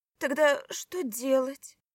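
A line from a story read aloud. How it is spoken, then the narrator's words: Hoarse question. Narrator (Russian): хрипло поинтересовалась Злата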